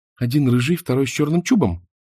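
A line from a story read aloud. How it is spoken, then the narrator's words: Quick question. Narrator (Russian): быстро спросила Мона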